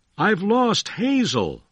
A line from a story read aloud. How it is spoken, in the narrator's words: William Wallace cried to his friend